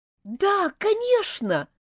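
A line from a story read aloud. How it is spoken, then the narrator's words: Joyful reply. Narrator (Russian): радостно ответила Элизабет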